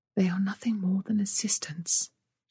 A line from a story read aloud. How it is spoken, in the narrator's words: whispered